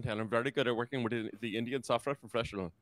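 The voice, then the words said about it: Put-on Indian accent. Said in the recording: “the only accent that I can really speak is an Indian accent. After many years working in the Silicon Valley, I have developed a very good Indian accent”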